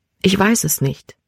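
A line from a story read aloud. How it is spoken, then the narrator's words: Said quietly. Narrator (German): sagte sie leise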